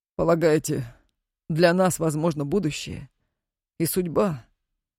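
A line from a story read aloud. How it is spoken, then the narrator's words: Weary interruption. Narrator (Russian): устало перебил ее Сокольский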